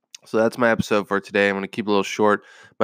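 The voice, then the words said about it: Wrecked, rough-sounding voice. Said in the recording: “My voice is wrecked. ... the terrible tone of my voice today”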